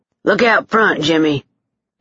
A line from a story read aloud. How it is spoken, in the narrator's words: Dane barked